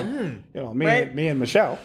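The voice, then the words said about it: Imitates another person's voice. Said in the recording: “Can you let me get this Obama shit off?... my own show of impersonation.”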